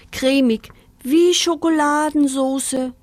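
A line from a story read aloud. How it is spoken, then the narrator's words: Contented moan. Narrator (German): stöhnte Pinky vor Behagen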